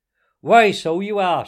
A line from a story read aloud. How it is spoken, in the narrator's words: she cried